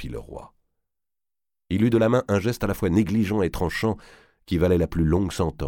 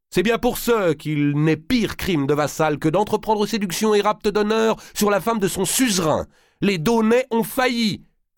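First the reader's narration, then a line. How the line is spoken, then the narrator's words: Exclaiming. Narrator (French): s'écria Valois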